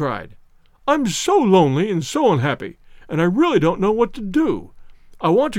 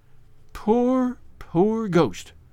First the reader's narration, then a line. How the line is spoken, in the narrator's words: she murmured